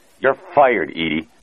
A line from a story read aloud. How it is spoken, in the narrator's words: said Howard Francis's angry, rasping voice